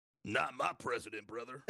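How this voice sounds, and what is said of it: Imitates another person's voice. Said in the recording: “That was a good impression. It sounded just like him.”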